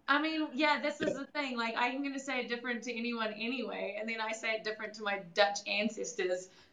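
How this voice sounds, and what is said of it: New Zealand accent. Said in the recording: “obviously we picked up on an accent there ... I'm from New Zealand”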